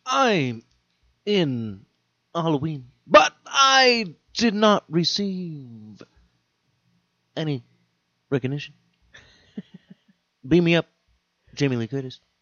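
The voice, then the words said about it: William Shatner impression. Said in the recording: “Michael Myers' mask is actually a William Shatner mask... let's hear your impression”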